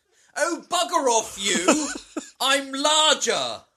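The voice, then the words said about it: Put-on British accent. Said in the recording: “In your best British accent.”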